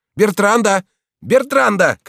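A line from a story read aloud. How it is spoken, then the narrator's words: Shouting. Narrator (Russian): кричал он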